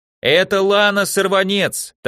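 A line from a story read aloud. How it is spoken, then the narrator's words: Loud sisters in unison. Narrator (Russian): так же громко в один голос поддерживали ее сестры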